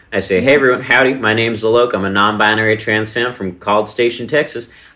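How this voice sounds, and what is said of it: Put-on Texan accent. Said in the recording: “sometimes I go on stage with a Texan accent.”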